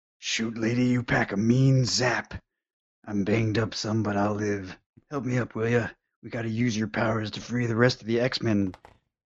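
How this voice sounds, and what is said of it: Wolverine character voice. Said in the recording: “you can do Wolverine then”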